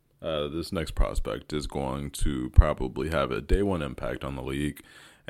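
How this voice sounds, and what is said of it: Deliberately deepened voice. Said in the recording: “put on my deep voice”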